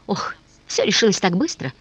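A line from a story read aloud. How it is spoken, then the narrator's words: Exclamation. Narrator (Russian): воскликнул он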